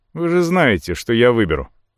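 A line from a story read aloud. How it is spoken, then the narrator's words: Boy's snorting reply. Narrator (Russian): хмыкнув носом, ответил мальчишка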